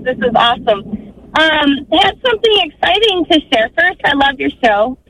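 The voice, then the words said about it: Happy, excited, near-tearful voice. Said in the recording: “you sound happy ... I'm almost in tears”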